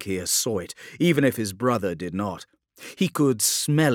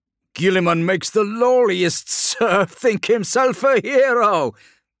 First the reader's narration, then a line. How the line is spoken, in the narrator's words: Kelinkir laughed